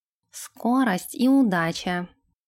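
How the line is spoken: Plain. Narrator (Russian): ответил Нэш

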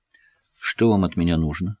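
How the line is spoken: Quiet, serious question. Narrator (Russian): спросила она тихо и серьезно

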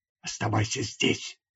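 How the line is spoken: Whispering. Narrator (Russian): прошептал я

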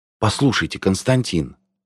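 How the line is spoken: Undertone. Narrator (Russian): вполголоса сказала Люся

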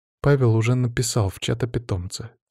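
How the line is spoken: Quiet. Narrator (Russian): тихо сказала Аня

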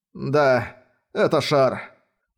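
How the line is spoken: Sighing. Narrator (Russian): Вздохнул Эрик

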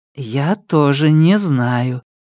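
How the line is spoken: Soft reply. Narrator (Russian): мягко ответила

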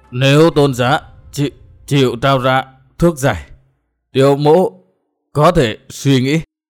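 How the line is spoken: Stammering in anguish. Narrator (Vietnamese): Cung thần sắc mặt từ trắng đổi sang xanh, ra chiều vô cùng đau khổ, lắp bắp nói

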